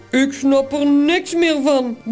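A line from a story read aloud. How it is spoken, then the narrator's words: Grumbled. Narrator (Dutch): bromt Toos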